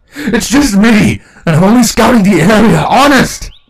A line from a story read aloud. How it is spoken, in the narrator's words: Rainbow Dash snarled at the whimpering changeling